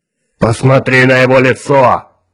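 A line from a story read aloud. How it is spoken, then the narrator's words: Barking. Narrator (Russian): рявкнул Кворн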